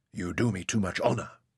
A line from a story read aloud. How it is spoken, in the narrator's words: Hassan whispered